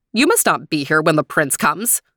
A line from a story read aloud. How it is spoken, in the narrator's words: said sharply